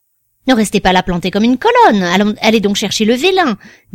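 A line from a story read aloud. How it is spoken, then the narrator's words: Impatient. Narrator (French): dit-il d'un ton impatient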